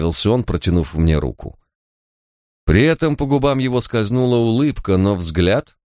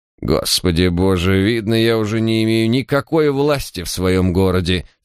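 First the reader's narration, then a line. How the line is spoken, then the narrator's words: Offended grumbling. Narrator (Russian): с обидой проворчал мэр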